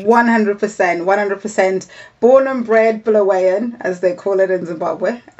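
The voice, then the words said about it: Zimbabwean Bulawayo accent. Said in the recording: “Bulawayo originally, in Zimbabwe, and that is where your delightful accent is from”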